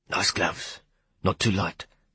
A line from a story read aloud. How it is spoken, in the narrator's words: he said softly